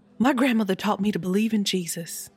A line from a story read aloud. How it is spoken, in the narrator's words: Etta blurted